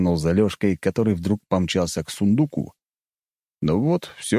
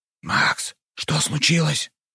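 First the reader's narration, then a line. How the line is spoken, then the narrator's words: Whispered. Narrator (Russian): прошептал Нарышкин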